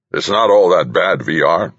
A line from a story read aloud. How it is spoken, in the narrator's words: said Dykes, his voice rough and throaty as if he'd been hollering at people all morning